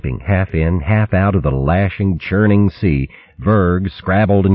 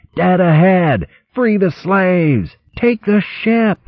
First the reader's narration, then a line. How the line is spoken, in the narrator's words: Berg shouting